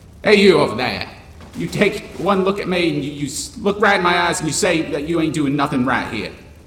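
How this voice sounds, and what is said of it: Yelling in an ambiguous accent. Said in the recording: “the ambiguous accent yell”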